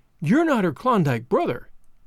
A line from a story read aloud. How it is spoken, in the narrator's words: Madge cried, her eyes bright with interest